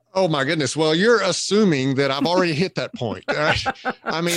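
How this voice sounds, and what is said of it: Southern US accent. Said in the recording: “Even with the Southern accent... I particularly like the Southern accent”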